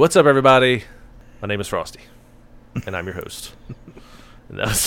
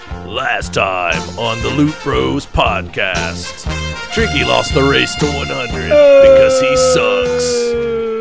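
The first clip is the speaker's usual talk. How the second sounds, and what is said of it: Dramatic cartoon announcer voice. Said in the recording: “the best Dragon Ball Z announcer voice I could do”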